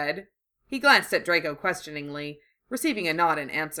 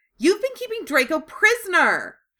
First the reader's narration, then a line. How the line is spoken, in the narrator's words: she shrieked